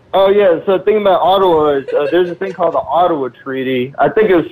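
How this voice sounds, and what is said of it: Noticeable foreign accent. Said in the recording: “Don't let the fucking accent fool you ... He's from Russia ... He's got Guyanese”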